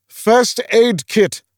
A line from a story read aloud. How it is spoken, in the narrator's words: bellowed Olaf